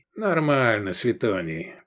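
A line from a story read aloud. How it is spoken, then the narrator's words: Grumbled. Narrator (Russian): проворчал экс-префект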